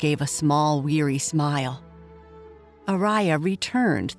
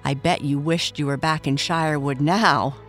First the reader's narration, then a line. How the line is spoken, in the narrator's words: Araya said with a laugh